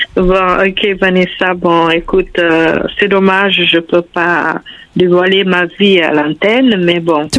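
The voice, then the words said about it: Pretty foreign accent in French. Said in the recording (French): “J'entends un joli accent. ... ton joli accent.”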